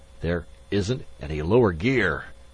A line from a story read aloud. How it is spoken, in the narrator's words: Magnan gasped